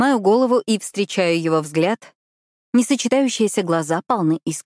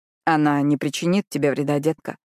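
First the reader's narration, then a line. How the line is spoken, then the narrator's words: Quiet soothing. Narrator (Russian): тихо успокаивает Зейд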